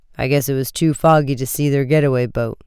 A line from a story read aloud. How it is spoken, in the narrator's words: the chief said gloomily